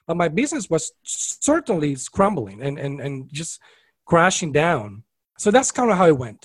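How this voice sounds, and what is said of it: Beautiful foreign-accented male voice. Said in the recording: “everyone hears his beautiful accent.”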